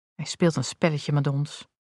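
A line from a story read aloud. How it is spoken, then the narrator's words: Plain. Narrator (Dutch): zei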